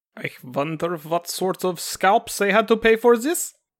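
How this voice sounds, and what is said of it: Put-on caricatured Native American accent. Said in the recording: “This is my American accent? ... Is das not the Native American accent? ... drop the accent for right now and just use your regular voice”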